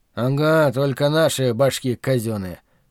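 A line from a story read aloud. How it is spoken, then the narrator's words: Snorting, wry. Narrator (Russian): хмыкнул Билл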